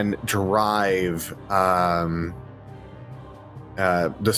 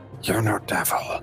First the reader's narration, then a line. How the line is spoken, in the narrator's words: whisper in Infernal